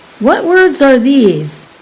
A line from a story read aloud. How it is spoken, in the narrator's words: Balk exclaimed